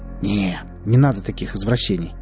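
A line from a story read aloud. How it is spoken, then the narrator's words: Grumbling. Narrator (Russian): проворчал он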